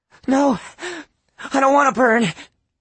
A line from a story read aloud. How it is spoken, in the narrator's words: Lana cried